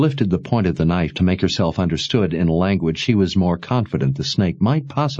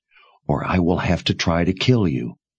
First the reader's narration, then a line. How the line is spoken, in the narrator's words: she whispered with deadly seriousness